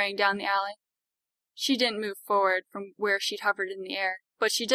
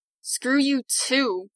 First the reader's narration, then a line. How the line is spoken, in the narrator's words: she hissed through her teeth